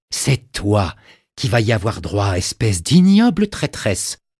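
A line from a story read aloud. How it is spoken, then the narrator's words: Low hoarse growl. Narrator (French): gronda-t-elle d'une voix rauque et basse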